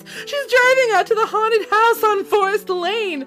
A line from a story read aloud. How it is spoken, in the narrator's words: she sobbed